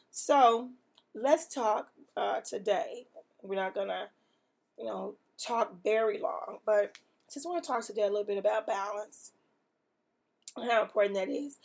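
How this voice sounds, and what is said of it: Voice going in and out. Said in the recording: “excuse my voice if it's going in and out, you guys. I've been having like the worst allergy season.”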